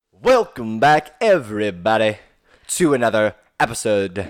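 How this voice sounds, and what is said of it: Put-on unidentified accent. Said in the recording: “What was that? What accent was that? ... It was my new intro.”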